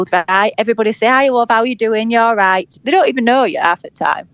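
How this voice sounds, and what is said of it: Yorkshire accent. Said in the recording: “our accent is friendly ... they've used Yorkshire accents on adverts ... it's like a trusted accent”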